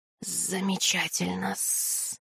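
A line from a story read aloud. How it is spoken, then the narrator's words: Hissing serpent. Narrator (Russian): прошипел змей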